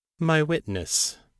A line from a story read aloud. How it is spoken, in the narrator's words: Baal said calmly